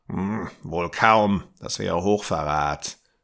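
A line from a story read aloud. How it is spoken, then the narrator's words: Growled, old man. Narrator (German): knurrte der alte Mann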